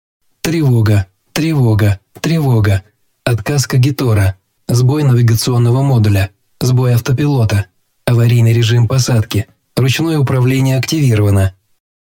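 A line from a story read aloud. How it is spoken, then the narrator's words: Strained growl. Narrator (Russian): Превозмогая тошноту, слабость и главную боль, я рыкнул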